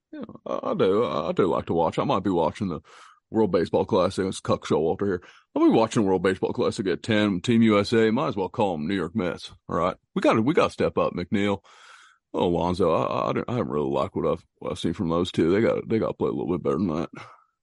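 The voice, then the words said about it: Imitates another person's voice. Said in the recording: “do an impersonation, a personalized impersonation for you ... One of his impersonations”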